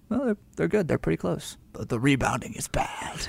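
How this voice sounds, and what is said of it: Put-on Malian accent. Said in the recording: “In his Malian accent”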